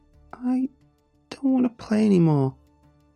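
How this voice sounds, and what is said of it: Whiny sweet little girl voice. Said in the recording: “she whined in a sweet little girl voice”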